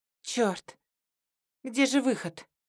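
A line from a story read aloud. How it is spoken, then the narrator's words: Panicked trembling whisper. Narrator (Russian): прошептала я дрожащим голосом, чувствуя, как паника поднимается к горлу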